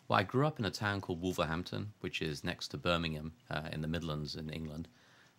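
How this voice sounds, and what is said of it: English Midlands accent. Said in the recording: “I hear more than a Buffalo accent in your voice”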